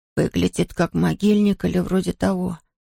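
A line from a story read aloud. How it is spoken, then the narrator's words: Whispered. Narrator (Russian): шепнул он Хуга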